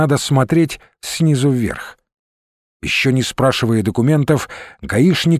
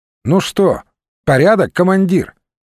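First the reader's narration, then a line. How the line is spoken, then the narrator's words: Cheerful question. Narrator (Russian): весело спросил Русинов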